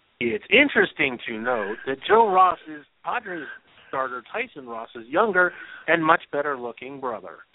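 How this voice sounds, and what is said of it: Imitates another person's voice. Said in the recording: “my Scully impression”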